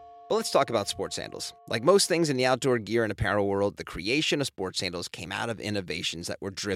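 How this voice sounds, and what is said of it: Usual voice. Nothing is said of it.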